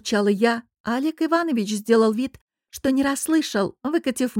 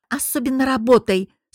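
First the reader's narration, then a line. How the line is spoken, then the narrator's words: Mocking growl. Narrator (Russian): с издевкой прорычала я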